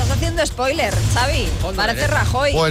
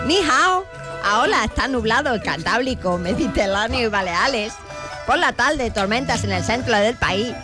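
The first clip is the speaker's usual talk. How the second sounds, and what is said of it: Put-on Chinese accent. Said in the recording (Spanish): “hoy le han pedido a ... que haga el tiempo en chino. Es acento chino ... con ese acento chino”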